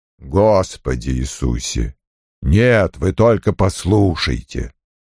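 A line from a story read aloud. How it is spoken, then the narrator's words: Growling. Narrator (Russian): прорычал Крэмер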